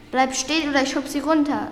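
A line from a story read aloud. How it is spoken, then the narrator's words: Called out. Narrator (German): rief Konstanze Carolina zu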